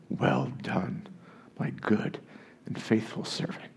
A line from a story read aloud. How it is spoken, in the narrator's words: whisper